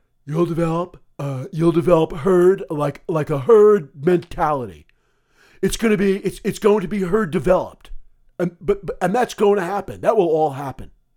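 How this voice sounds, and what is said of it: Donald Trump impression. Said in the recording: “my Trump impersonation”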